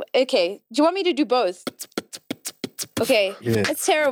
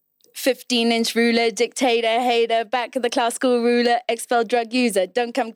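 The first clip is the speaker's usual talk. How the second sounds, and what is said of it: Put-on British accent, self-described bad. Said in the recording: “I just wanted to hear the British accent ... The British accent ... It's terrible. It's so bad.”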